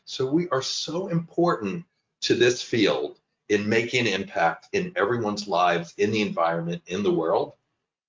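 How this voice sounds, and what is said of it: Emotional voice. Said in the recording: “got a bit emotional”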